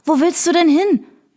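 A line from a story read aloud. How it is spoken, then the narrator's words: Breathless panting question. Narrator (German): fragte Sarah keuchend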